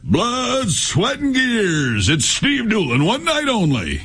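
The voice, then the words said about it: Dramatic announcer voice. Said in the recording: “How'd you like that announcer voice?”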